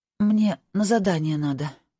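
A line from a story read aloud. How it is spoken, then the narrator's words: Hoarse voice. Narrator (Russian): сиплым голосом сказала она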